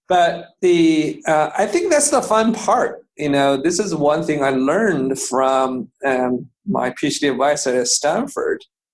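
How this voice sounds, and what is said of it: Speaks with a foreign accent. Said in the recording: “It's a little bit weird with my accent.”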